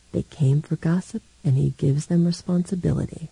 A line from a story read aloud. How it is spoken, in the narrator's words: Dom Christian murmured to his wife